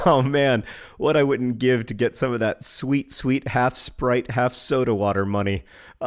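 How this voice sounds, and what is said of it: Husky voice from a cold. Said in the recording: “I have a bit of a cold, so I'm coming to you today with my husky voice.”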